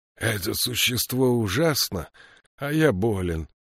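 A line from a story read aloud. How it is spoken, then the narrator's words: Groaning. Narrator (Russian): простонал Кадрах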